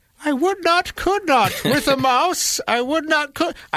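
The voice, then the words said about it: Old grandmother character voice. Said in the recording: “the grandma voice”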